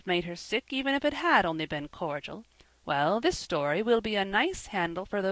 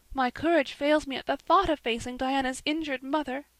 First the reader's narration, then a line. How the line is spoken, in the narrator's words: sighed Anne